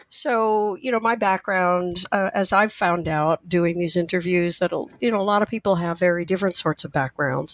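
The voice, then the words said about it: Husky, hoarse voice. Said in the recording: “I will probably be doing my best Scarlett Johansson imitation today because of a cold”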